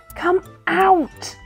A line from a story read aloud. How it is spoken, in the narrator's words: cried Cuddle Pie